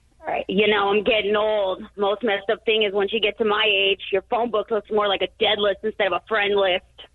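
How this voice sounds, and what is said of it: Imitates another person's voice. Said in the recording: “your comedy impression ... George Carlin?”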